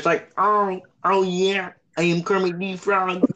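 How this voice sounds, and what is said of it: Kermit the Frog character voice. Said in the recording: “that impression is cursed”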